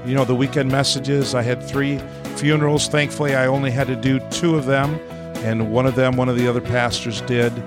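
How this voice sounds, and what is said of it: Sick-sounding, congested voice. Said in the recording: “You can probably hear the difference in my voice. ... I had a pretty bad cold through these past 10 days”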